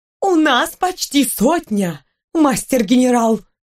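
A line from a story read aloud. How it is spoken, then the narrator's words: Joyful woman. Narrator (Russian): радостно сообщила одна из бронированных дам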